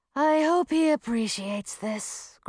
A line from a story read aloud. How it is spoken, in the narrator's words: grumbled Millie with a sigh